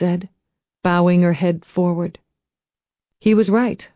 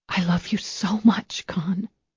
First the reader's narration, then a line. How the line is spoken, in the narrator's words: she whispered